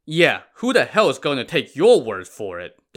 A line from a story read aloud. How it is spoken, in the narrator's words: Dong Chao scoffed